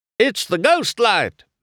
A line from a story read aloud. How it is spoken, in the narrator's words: Mater cried